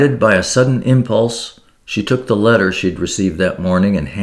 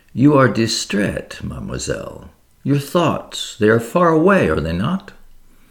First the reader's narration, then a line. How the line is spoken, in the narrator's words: Poirot bent forward and murmured to Catherine